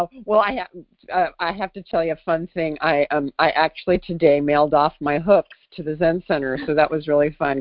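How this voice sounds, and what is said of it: Low, congested voice from a cold. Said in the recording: “a slightly different voice because I have a cold ... who is that person with a low-octave voice?”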